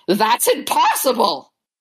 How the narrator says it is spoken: he screams

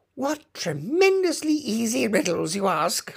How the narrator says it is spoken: Humpty Dumpty growled out

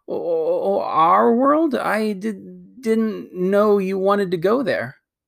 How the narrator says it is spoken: Diggory got very red in the face and stammered

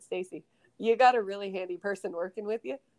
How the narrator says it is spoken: I was laughing so hard because when we rode out of the arena, I said

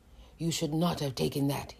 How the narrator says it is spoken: he said in a low voice

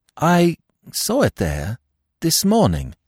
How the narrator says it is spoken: I said slowly

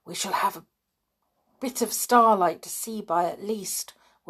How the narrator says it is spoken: whispered Julian

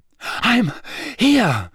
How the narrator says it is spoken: Harry panted

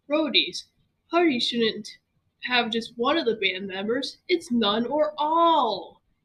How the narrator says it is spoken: he screeched and yawned simultaneously

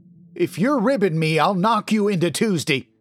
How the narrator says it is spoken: shouted

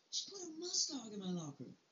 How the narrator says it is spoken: he screamed

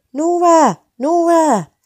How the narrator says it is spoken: heard shouting

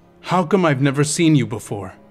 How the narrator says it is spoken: he asked

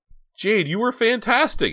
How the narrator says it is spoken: shrieked

